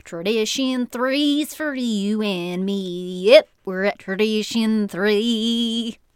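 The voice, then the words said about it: Sung in a put-on Southern country accent. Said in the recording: “I should sing it in a country voice ... I don't know what Southern accent that was.”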